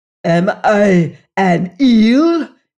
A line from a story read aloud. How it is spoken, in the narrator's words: he roared